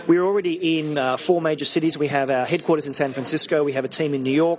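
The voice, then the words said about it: Slight Australian accent. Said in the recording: “with a slight accent from down under. That would be Australia.”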